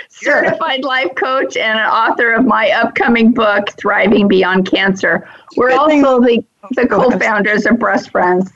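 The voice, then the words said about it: Congested voice from a cold. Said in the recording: “I have a little cold ... You have a bad cold.”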